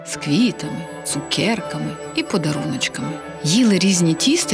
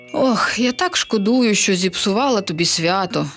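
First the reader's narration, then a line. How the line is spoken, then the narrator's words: Sighing witch. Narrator (Ukrainian): зітхнула відьма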